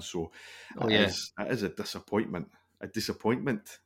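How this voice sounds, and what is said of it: Imitates another person's voice. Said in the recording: “my best Owen Coyle impersonation ... That was a good one”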